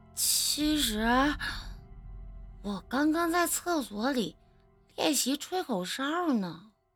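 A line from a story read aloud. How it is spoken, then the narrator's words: Embarrassed quiet voice. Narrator (Chinese): 小哲的脸突然变得通红，低着头小声地说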